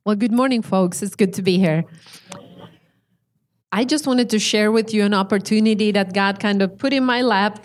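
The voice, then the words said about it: Slight Swedish-Finnish accent. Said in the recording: “from the Swedish-speaking part of Finland... she has a little bit of an accent, but she speaks English very well”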